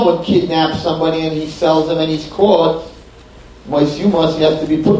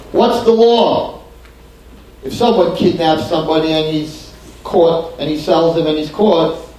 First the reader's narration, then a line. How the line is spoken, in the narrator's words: they said